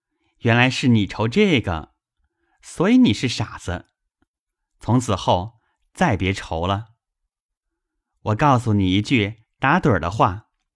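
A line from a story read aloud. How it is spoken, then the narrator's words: Laughing. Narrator (Chinese): 宝玉笑道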